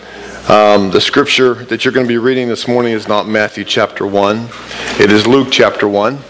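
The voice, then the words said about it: Slightly hoarse, lower voice. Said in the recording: “I still have a little bit of the frog in my throat ... my voice is still lower.”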